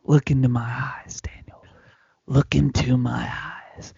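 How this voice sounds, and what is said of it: Whispered wrestler promo voice. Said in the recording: “I'm whispering ... When I cut a promo, I whisper. I whisper”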